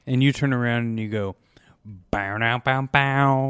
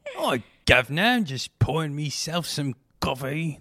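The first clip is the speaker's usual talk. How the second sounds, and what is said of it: Mock Cockney accent impression. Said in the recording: “That's my Dick Van Dyke impression.”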